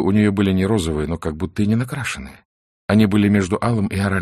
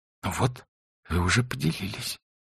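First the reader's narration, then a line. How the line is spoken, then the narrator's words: Whispered with a smile. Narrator (Russian): шепотом сказала она, улыбаясь ему глазами и губами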